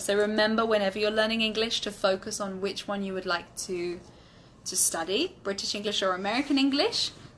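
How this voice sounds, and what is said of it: British English accent. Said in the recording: “my British accent. In my British English accent”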